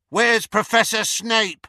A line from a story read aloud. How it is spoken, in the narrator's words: shouted a girl from the Slytherin table